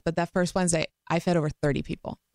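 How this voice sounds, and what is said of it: Choked-up, emotional voice. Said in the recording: “I get choked up every time I say this”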